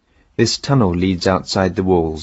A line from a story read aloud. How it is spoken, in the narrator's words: Antenor said